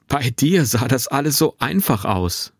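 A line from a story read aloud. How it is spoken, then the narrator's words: Laughing call. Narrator (German): rief er lachend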